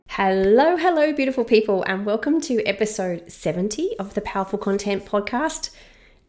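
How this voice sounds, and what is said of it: Voice sounds unwell. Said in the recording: “As you can probably hear from my voice, I am a little bit under the weather this week ... hopefully this will be the only episode that I sound like this”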